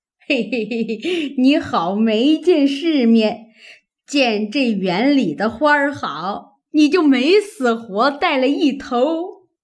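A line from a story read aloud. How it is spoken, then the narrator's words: Laughing old woman. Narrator (Chinese): 刘姥姥笑道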